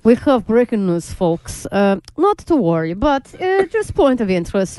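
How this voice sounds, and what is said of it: Put-on Russian accent. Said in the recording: “you do the Russian accent”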